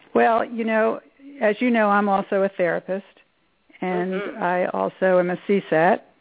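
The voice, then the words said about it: Slightly hoarse voice. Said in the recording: “A little hoarse, though”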